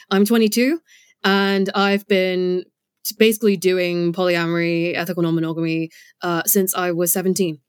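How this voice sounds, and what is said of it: British accent. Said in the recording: “As you can probably tell from my accent, I'm based in the UK.”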